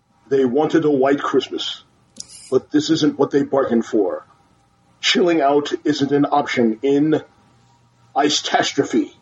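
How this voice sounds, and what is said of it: Deep movie trailer announcer voice. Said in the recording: “in my movie trailer voice. ... drop my voice an octave.”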